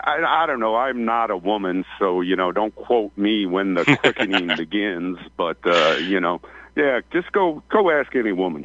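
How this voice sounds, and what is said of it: Rural Ozarks country accent. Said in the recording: “Accent, man, you, you, you, sound like you sound like one of my friends up in the Missouri, uh, up in the Arkansas Ozarks ... I just love country people. I love your accent.”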